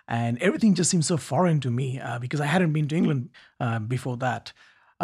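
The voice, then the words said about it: Slight foreign accent. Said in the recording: “I still have a bit of accent, as you can hear from my tone.”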